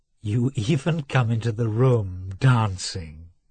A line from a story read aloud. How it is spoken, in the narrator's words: she said